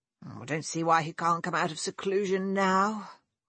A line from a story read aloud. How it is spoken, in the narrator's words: George grumbled